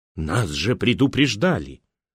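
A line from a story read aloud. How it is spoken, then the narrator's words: Tragic theatrical whisper. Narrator (Russian): прошептала над трупом трагически, как в кино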